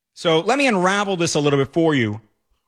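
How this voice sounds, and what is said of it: Loud, shouting voice. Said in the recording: “because I'm screaming. I've been screaming all day ... I'm just such a powerful voice in the newsroom”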